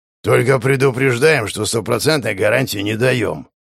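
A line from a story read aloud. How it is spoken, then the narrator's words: Hoarse voice. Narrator (Russian): хрипло произнес один из собеседников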